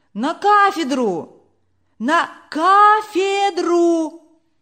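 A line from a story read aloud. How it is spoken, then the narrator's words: Shouts from audience. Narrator (Russian): кричали из публики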